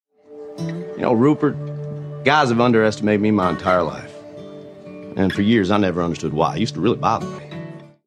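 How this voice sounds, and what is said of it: Ted Lasso's Southern American accent. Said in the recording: “I really can't quite figure out why Ted Lasso from Kansas has the accent he does ... He sounds a lot more like the people I grew up with in the South than any of my relatives who live in Kansas ... his accent works well for the part”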